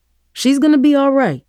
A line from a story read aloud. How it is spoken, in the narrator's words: Dad snapped